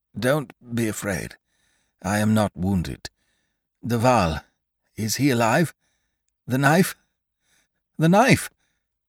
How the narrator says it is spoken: In a broken voice, he said

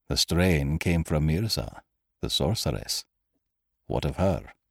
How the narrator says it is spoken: Cairn quietly

